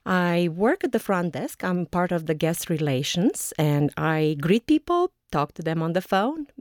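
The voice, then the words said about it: Romanian accent. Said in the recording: “where does your accent come from? ... I came from Romania. ... I am allegedly speaking with an accent. ... But I do have one and I'm aware of it.”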